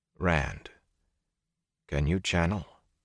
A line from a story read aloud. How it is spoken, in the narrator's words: Matt gave a strangled gasp